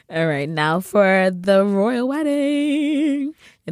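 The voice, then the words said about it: Imitates another person's voice. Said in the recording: “in my Oprah voice ... That's a pretty good Oprah too.”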